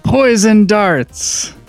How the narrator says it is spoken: yells

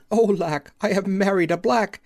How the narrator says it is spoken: she cried out

